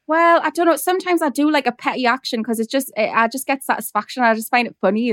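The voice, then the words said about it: Strong Geordie accent. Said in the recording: “my Geordie accent is like intense”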